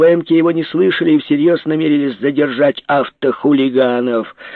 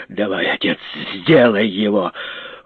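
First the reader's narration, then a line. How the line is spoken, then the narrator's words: Quiet. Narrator (Russian): Жеглов тихо сказал Копырину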